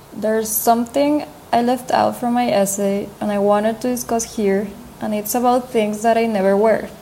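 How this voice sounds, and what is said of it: Speaks English with an accent. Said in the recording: “as you have probably noticed, I have an accent.”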